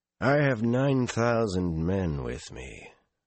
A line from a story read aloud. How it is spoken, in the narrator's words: the other man said in a surprisingly mild tone